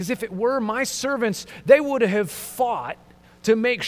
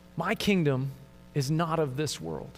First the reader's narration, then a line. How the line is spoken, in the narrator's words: calmly responds